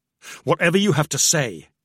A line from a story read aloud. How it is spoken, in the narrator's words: he growled